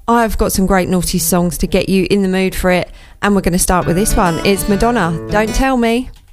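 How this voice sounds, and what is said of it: Excited, buzzing upbeat voice. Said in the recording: “As you can hear from my voice, I am absolutely buzzing”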